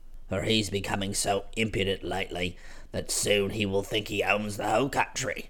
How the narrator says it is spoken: he muttered

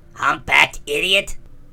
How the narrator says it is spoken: shrieked the other

